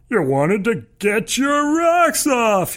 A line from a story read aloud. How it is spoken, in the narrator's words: he shouts in a high-pitched cackle